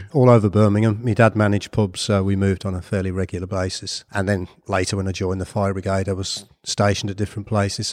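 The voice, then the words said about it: Brummie accent. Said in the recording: “your Brummie accent”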